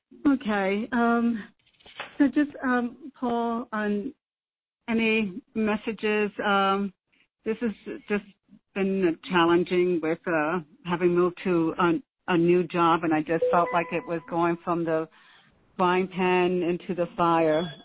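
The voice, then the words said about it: Hoarse, fading voice. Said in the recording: “I'm sorry, losing my voice.”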